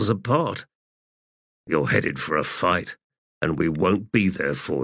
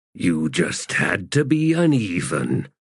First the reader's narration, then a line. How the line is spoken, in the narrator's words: growled Balm in a low voice